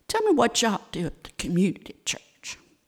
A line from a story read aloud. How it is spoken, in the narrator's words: Granger said softly